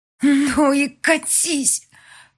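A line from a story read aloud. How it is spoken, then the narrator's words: Loud whisper. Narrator (Russian): шеплю вслед достаточно громко, чтобы он услышал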